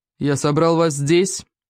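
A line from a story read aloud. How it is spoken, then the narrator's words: Booming chief's voice. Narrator (Russian): прогудел великий вождь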